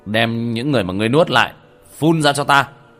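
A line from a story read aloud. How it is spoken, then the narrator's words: Shouting. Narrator (Vietnamese): Long Tuyển kiếm quát lên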